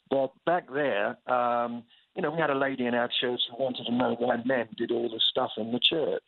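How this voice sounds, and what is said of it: English accent. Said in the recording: “I got this accent thing ... I just had a successful accent refurbishment procedure back in England, so it's fairly fresh and new again”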